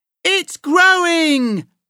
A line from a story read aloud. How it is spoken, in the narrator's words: he yelled